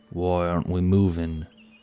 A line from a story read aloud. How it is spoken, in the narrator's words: he muttered